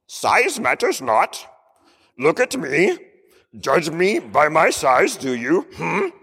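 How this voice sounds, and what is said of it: Yoda impression. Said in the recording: “I'm not going to get his accent down right ... do a better impression of Yoda than I can”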